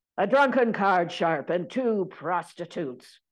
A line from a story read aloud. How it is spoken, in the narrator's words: shouted the marshal